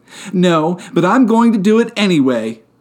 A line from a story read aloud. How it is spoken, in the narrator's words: she yelled back